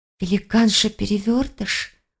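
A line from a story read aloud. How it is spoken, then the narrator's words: Whisper. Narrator (Russian): прошептала Келлеер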